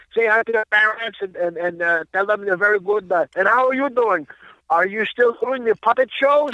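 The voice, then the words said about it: Imitated French accent. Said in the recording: “He's got the French accent.”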